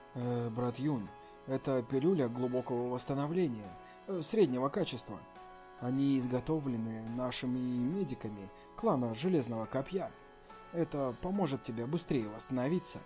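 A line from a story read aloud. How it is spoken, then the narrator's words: Quiet. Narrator (Russian): тихо сказал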